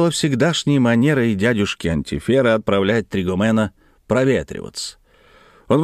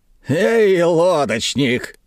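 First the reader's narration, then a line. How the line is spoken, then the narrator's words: Loud booming shout. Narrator (Russian): зычным голосом закричал дядюшка Антифер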